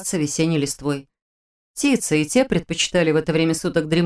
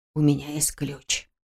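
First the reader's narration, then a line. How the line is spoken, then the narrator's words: Close whisper. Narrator (Russian): прошептал рядом Слава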